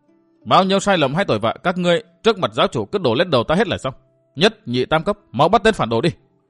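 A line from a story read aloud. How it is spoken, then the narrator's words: Flustered loud shout. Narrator (Vietnamese): Vi Tiểu Nữ đỏ bừng cả mặt, vội quát lớn để che lấp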